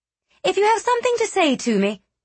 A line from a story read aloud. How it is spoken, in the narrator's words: she snapped, color climbing up her cheeks